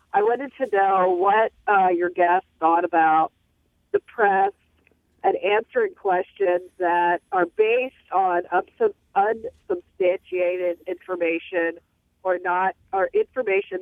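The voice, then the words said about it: Congested voice with a cold. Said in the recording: “I've got a bad cold, ... I don't want to cough”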